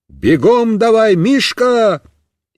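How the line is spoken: Shouting. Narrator (Russian): закричал

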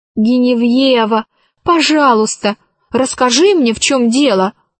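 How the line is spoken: Pleading. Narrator (Russian): взмолилась Алиса

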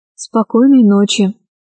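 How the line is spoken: Sad reply. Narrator (Russian): ответил Аркаша печально

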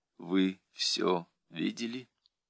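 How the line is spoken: Very quiet question. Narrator (Russian): спросила очень тихо

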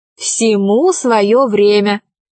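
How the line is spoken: Plain. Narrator (Russian): сказала Алиса

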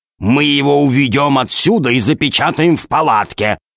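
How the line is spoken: Growled. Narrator (Russian): зарычал Громозека

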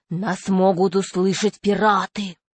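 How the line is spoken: Different voice. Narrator (Russian): 2-й клюв другим голосом произнес

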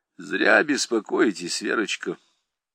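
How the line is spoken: Very tender voice. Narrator (Russian): Голос Гирина звучал совсем нежно

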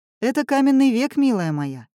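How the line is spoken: Wry snort. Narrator (Russian): хмыкнул Семён

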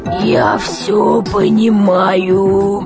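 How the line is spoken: Rusty creaking voice. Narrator (Russian): Проскрипел космонавт, словно его голос заржавел

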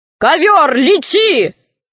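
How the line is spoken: Shout. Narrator (Russian): крикнул Синдбад-мореход

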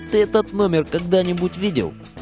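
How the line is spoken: Boy, indifferent. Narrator (Russian): Мальчишка равнодушно так говорит

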